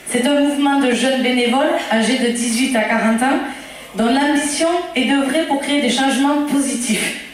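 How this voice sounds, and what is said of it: Regional southern French accent. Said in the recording (French): “j'ai reconnu mon accent du Lévezou, là. Bien péchu”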